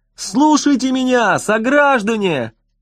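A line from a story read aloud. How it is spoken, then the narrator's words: Yelling on and on. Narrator (Russian): Хигги вопил и вопил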